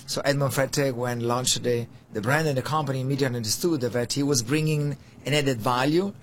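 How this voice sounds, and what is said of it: Italian accent. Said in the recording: “I'm Italian, you came from accent.”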